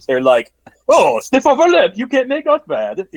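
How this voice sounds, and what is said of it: Upper-class British accent. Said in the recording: “flawless British accent ... I was trying to go for a more upper class. I normally go with a Cockney accent,”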